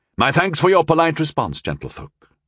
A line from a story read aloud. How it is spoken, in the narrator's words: he said smoothly